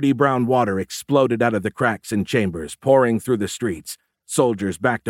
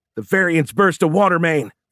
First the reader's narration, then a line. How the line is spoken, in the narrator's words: Fisher shouted